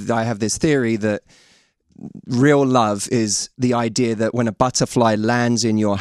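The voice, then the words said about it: Imitates another person's voice, English accent. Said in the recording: “best Matthew Hussey impersonation ... It's like an English Michael Jackson. It's very strange.”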